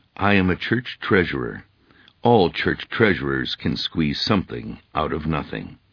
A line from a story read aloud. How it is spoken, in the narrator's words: The man meekly replied